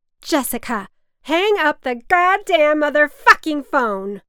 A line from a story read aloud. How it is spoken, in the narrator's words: my mother was screaming from her blow-up bed